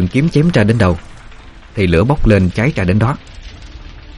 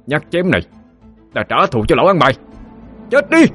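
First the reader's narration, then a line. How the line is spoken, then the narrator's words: Teeth-gritted roar. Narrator (Vietnamese): Cậu nghiến răng ken két mà gầm lên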